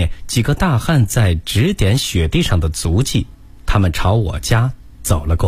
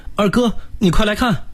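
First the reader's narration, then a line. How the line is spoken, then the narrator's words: Sudden uneasy call. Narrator (Chinese): 三弟突然不安地叫我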